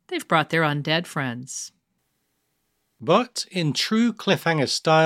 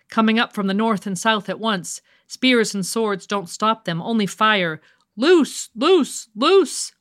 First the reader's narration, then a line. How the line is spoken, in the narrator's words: screamed